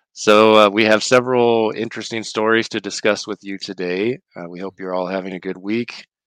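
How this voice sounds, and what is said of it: Voice slightly off from a cold. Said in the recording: “my voice sounds a little off today. I have caught the cold”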